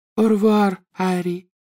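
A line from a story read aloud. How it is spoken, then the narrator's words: Deep chest voice. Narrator (Russian): сказала Флёр грудным голосом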